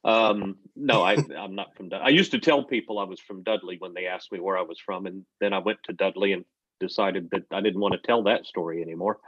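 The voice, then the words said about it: American accent. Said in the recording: “I can tell by your accent ... you're not from around here, are you? ... I'm originally from America.”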